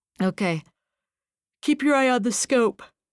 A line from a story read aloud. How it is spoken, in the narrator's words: said Runyon with a yawn